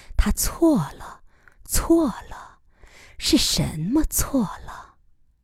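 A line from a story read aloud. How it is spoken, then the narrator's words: Murmuring. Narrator (Chinese): 喃喃地说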